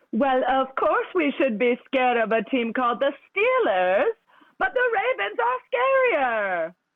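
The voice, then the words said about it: Theatrical character voice, sing-song intonation. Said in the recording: “you are an incredible Moira Rose ... The key is really just the up and downs of it”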